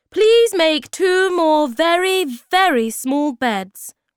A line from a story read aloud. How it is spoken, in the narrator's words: shouted